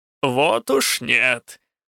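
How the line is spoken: Hoarse laughter. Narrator (Russian): хрипло расхохоталась Чуа

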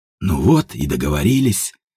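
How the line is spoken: Muttering. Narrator (Russian): пробормотал Степан

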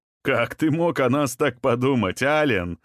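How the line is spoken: Laughing. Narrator (Russian): засмеялся Захари

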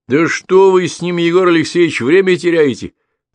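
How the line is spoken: Shouted. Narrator (Russian): крикнул парень

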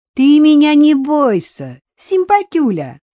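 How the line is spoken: Shrill hysterical giggle. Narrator (Russian): взвизгнула она истеричным смешком

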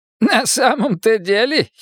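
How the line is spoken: Giggling. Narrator (Russian): хихикнул поэт

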